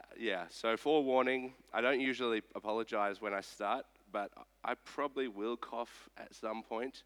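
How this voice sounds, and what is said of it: Sick, rougher than usual voice. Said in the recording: “I'm a little bit sick... you might think this is what my voice sounds like, but it doesn't. It usually sounds a bit better than this.”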